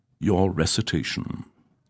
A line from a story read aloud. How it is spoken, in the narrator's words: he would instruct, speaking softly so as not to rattle the windows